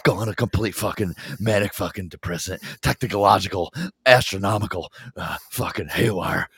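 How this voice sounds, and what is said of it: Imitates another person's voice. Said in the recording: “that's the best imitation ... just like Gary fucking Busey”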